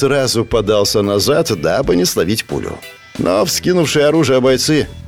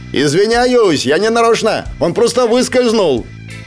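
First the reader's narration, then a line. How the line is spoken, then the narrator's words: Gloating shout. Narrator (Russian): И я злорадно крикнул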